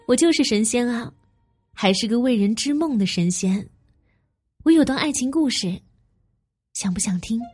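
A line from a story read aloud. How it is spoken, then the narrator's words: Bright, smiling. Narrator (Chinese): 素锦皎洁的一笑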